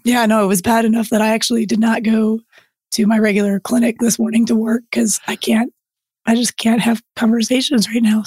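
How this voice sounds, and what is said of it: Strained, nearly lost voice. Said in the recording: “Normally, I do not sound like this at all ... it sounds strangely sexy ... lose your voice ... this is just painful ... very strained effort”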